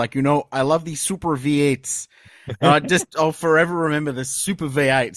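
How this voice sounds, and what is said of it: Imitated Brazilian accent, Max Wilson. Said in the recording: “in his very Brazilian accent, he was like”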